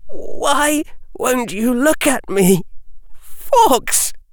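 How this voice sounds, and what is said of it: Shaking, trembling voice. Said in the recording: “in a shaking voice”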